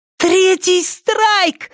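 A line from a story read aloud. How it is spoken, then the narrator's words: Exclaiming. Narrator (Russian): воскликнула Триша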